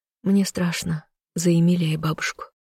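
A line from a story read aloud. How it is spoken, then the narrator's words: Anxious whisper. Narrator (Russian): кусая губы, прошептала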